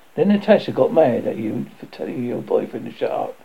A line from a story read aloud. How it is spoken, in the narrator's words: Carly says, laughing